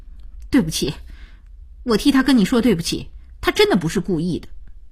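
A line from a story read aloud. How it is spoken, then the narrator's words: Stern voice. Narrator (Chinese): 声音凛然起来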